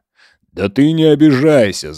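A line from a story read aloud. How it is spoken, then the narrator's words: Loud laughter. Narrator (Russian): Захарий громко рассмеялся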